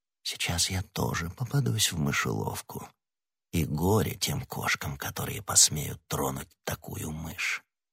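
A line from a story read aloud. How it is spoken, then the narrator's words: Whisper. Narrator (Russian): тихонько постучал, прошептав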